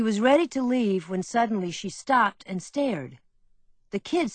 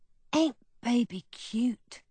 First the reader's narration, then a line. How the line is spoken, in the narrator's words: said Bubber softly